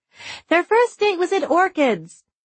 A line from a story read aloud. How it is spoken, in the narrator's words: for the fourth time Liz called out